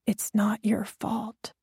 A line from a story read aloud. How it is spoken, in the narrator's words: pressed my lips against his ear and whispered again